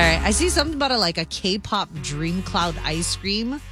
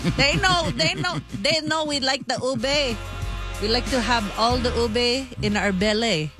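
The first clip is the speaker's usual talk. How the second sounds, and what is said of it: Put-on Filipino accent. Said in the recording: “that was my Filipino accent. ... Sounded great. ... Channeling my mother.”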